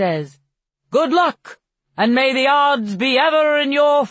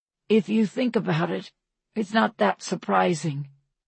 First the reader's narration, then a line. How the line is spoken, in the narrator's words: he says softly